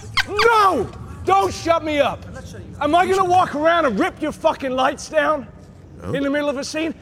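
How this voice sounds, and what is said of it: Angry yelling. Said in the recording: “he's yelling”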